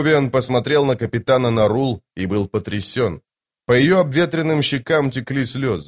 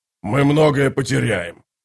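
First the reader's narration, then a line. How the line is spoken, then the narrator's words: Growling. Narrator (Russian): прорычал воевода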